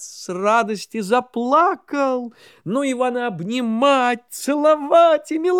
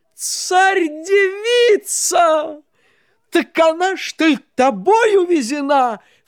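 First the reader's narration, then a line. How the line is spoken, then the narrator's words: Exclamation. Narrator (Russian): вскрикнул месяц Месяцович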